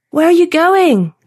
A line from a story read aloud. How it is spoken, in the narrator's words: Nate yelled